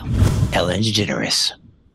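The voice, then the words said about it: Creepy announcer voice. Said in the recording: “You sounded really creepy. ... It's my announcer voice.”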